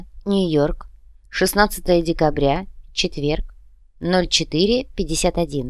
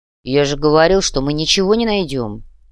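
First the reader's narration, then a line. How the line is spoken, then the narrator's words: Gloomy deep voice. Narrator (Russian): угрюмо пробасил Сэм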